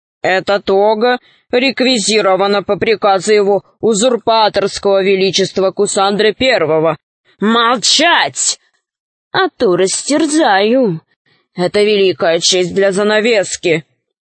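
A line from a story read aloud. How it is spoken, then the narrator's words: Growling wolf. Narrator (Russian): Волк зарычал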